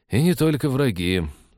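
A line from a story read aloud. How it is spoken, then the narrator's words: Sigh. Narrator (Russian): вздохнул Станислав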